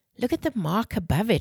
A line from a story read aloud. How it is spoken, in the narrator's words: Wren exclaimed